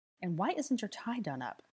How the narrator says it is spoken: asked Granger in a techie whisper

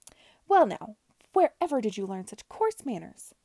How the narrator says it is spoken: exclaimed Mrs

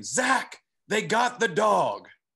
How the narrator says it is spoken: Dustin scream

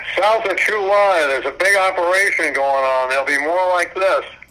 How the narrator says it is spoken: They yelled

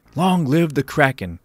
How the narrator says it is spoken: the churchgoers yelled back

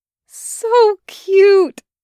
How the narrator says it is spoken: Taki cried

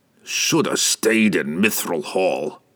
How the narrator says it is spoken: Brunner grumbled

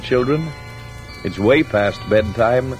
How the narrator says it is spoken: Moore said gently

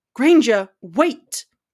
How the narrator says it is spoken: barked

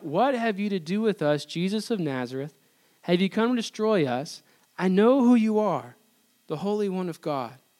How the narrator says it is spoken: a man with an unclean spirit, and he cried out

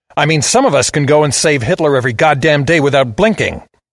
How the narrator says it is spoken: I snarled

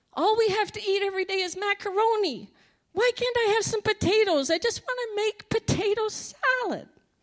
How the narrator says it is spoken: I cried out to the Lord

